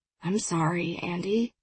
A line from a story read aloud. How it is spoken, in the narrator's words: he said, his voice low and soft